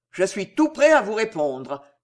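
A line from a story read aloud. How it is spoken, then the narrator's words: Vibrant voice. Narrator (French): dit Pardeillan d'une voix vibrante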